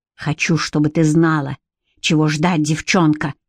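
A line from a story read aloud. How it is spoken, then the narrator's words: Hissed. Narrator (Russian): прошипел он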